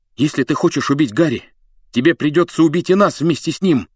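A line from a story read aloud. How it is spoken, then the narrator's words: Furious shout. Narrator (Russian): яростно крикнул он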